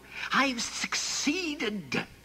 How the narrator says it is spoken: he hissed

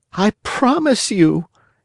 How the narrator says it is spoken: answered the Marionette, sobbing

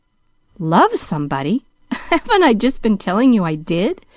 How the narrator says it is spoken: laughed John Pendleton, half vexedly

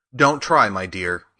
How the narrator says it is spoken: he answered

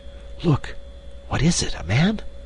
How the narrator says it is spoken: she whispered

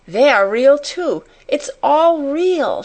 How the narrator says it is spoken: she cried

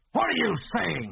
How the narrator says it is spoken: he snarled

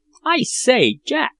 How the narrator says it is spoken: cried Peterkin

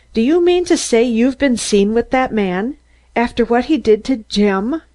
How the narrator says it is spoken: I gasped

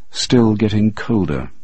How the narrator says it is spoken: he said

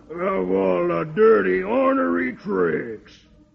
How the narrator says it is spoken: Brimstone growls

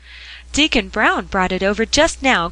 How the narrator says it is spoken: cried Polly

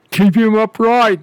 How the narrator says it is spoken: they all roared

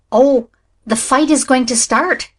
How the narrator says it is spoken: cried Nan in high excitement

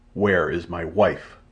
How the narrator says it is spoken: growled the ape man

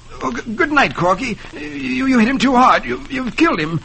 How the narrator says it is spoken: Taffy exclaiming fearfully

